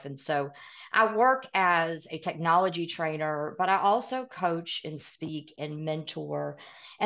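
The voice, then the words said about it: Southern US accent. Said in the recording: “I completely have the Southern accent ... I've got that Southern accent”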